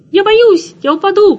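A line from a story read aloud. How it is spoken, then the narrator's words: Frightened squeak. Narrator (Russian): пропищал Тирли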